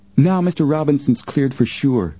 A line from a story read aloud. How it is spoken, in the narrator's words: Joe exclaimed